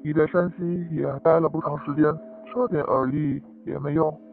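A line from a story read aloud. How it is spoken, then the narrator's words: Lowered voice. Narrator (Chinese): 少爷也压低了声音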